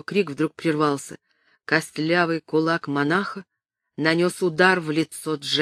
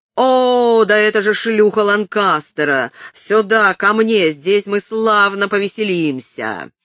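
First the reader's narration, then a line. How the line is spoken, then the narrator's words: Yelling. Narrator (Russian): Ткач злобно завопил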